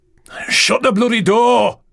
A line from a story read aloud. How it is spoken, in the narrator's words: He roared, over the sound of the wind and sea which howled like a banshee around their heads